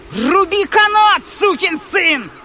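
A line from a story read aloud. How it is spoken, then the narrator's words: Furious yell. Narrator (Russian): ярость охватила меня и заорала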